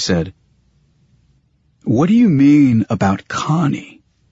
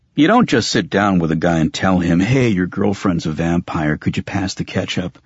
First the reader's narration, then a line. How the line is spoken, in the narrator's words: I sighed